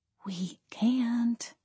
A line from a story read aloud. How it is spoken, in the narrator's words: I whispered